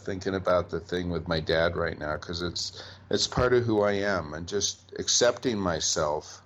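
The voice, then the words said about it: Choked up, emotional voice. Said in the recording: “I'm just kind of a little choked up”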